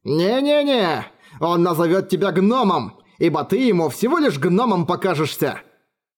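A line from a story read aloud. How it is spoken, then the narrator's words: Coarse laughter. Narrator (Russian): Орик грубо захохотал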